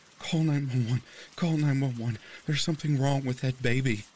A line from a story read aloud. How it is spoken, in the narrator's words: She was panting, muttering the words